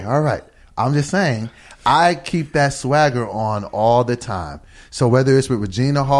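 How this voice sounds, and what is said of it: Usual voice. Nothing is said of it.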